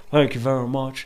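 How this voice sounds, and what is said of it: Imitates another person's voice, poorly. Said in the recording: “I do a terrible impersonation.”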